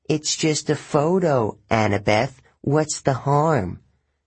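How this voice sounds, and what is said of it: Mocking imitation of a boy's voice. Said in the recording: “In a bad imitation of my voice”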